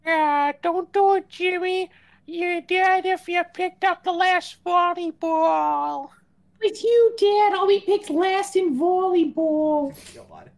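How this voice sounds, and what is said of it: Cartoon character voice. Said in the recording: “do your Carl voice?”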